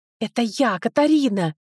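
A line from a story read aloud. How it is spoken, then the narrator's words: Hissing. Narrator (Russian): Прошипела я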